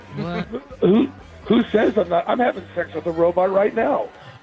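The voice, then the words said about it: Lost, strained voice. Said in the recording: “Is that why you lost your voice? Or are you sick? ... Are you going through puberty? ... No, I've lost my voice.”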